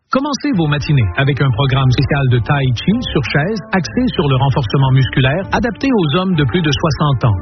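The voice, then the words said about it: Quebec French accent. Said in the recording (French): “il fait croire que c'est un Chinois alors qu'il a l'accent québécois”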